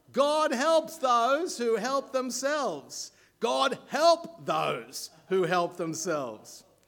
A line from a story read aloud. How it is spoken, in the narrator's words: a voice boomed from the room next door